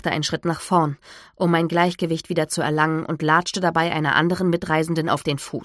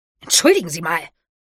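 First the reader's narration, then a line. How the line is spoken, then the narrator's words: Woman hissing, recoiling. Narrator (German): fauchte die Frau, als sie zurückwich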